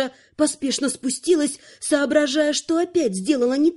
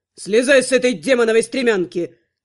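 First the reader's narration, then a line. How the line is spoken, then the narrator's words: Barking necromancer. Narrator (Russian): рявкнул некромант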